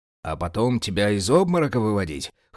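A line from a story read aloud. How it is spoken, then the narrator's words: Mentor's chuckle. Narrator (Russian): хохотнул наставник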